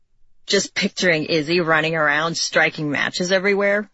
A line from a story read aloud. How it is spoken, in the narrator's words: he snorted